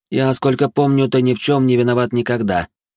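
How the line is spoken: Grumbling. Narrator (Russian): проворчала она

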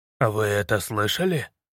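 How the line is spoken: Quiet question. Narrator (Russian): тихо спросил

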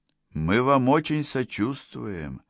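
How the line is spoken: Gentle. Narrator (Russian): мягко начал Фрелик

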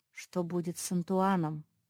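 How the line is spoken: Quiet question. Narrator (Russian): тихо спросил Марк

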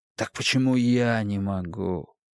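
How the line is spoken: Sighing. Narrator (Russian): вздохнул Брейер

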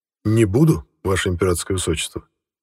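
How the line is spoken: Sighing. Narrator (Russian): вздохнул я

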